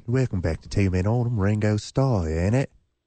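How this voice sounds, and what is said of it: Imitated British accent. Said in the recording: “him in his British accent”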